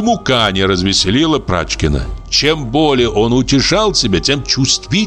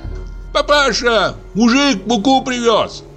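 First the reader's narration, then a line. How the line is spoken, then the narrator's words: Shouted. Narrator (Russian): крикнул Ваня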